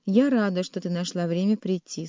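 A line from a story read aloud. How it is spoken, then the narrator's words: Dry, cold. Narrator (Russian): сухо сказала Ева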